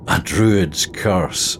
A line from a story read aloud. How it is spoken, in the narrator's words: I chuckled